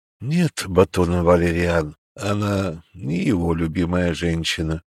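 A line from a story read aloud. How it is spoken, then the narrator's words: Crushed, dejected voice. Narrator (Russian): убитым голосом признался Арчил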